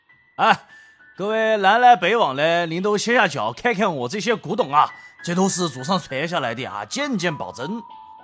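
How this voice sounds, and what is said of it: Loud Sichuan-accented Mandarin shouting. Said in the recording (Chinese): “用一口四川口音的普通话大声的吆喝着”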